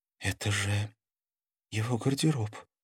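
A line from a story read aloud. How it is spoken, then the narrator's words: Frightened breathless exhale. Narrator (Russian): испуганно выдохнула Карина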